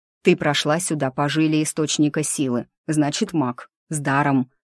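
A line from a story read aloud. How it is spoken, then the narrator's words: Near growl. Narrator (Russian): почти прорычал Сыч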